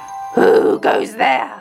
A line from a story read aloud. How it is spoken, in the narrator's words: roared the troll